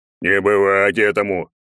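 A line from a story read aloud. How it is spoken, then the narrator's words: Barked. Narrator (Russian): гаркнул Добрыня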